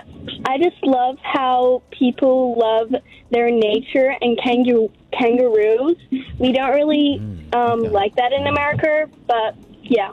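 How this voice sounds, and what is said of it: Put-on American accent, somewhat Texan. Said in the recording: “the American accent slowly came in. There was a delay for the American accent. ... She's starting to sound more like a Texan. ... you put on a voice.”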